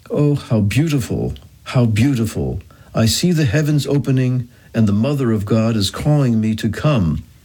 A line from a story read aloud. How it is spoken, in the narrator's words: A girl, 12 years of age, exclaimed at the moment of death